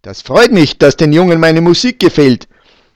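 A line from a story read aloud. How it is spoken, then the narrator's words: Calling across the room. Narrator (German): rief der Schleicher Michi über alle Tische hinweg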